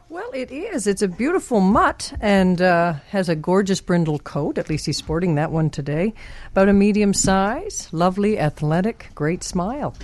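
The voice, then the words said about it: Eastern Canadian accent. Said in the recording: “there's an accent there, but it's a cool accent ... East coast, like Nova Scotia?”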